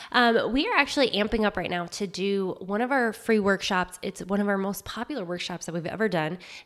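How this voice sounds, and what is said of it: Slightly wonky, cold-affected voice. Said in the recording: “I have a bit of a cold, so if I sound a little wonky”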